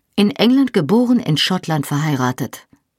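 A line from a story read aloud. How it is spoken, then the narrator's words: Firm voice. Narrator (German): sagte ich mit fester Stimme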